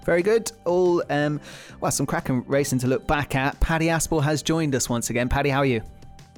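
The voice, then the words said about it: Voice sounds a bit ill. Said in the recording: “you might tell from my voice that I'm a little bit under the weather”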